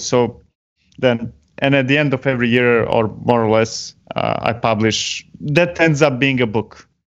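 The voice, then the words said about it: Non-native English accent. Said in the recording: “my accent, English accent, is horrible”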